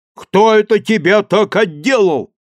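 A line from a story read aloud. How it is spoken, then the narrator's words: Priest shouting. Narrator (Russian): кричал поп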